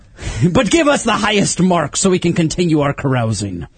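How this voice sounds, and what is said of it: Pirate voice like bad Irish accent. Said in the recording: “you guys are doing this pirate thing... It sounds an awful lot like a bad Irish accent”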